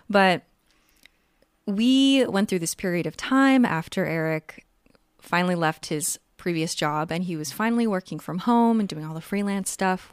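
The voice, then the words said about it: Tired voice, needs throat clearing. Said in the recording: “I'm also feeling the need to continuously clear my throat because my voice is tired.”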